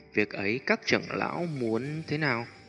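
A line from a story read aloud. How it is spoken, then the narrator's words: Careful, after awkward laugh. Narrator (Vietnamese): vẻ mặt hơi xấu hổ, xoay đầu miệng lại cười gượng mấy tiếng, đợi khi ổn định tâm tình mới cẩn thận nói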